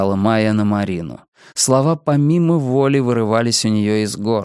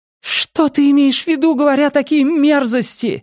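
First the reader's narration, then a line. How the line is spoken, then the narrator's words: Pained shout. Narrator (Russian): закричала она с болью в голосе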